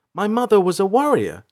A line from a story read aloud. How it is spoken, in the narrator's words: she asked excitedly